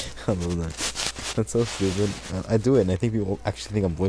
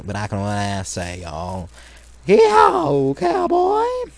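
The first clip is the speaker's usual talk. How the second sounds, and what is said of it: Loud put-on country accent. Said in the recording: “country accent, like kind of low level country accent. There's also like country accent I can make loud, a little bit more louder than the other country accent”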